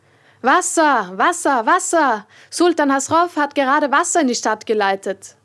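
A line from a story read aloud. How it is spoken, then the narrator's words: Criers shouting at night. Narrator (German): schrien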